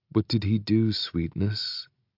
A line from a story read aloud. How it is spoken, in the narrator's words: Dee asks, his voice smooth and coaxing